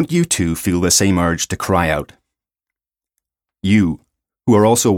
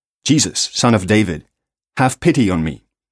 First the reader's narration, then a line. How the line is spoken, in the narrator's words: his soul was so fired with faith in Christ that he cried out